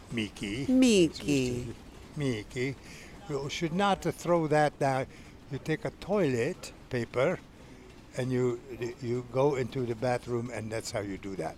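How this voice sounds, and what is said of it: Quotes someone with a foreign accent. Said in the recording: “Accent too, of course.”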